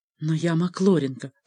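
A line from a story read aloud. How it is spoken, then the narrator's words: Female whisper. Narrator (Russian): прошептала она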